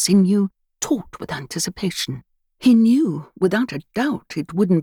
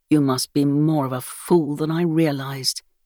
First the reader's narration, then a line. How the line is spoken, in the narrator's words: growled